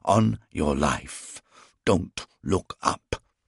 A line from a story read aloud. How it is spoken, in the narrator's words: he hissed at me